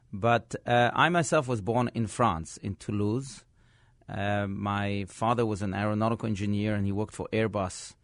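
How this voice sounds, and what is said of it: Mixed foreign accent. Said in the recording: “my accent is, is mixed”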